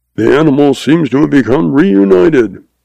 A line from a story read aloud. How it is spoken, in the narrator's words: laughs